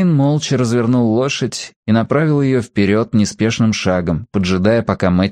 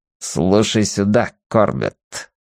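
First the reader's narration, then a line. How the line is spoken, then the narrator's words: Through gritted teeth. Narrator (Russian): процедил Девейн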